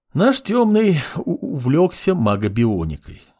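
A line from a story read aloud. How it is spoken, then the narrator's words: Sigh. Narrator (Russian): вздохнул Синайку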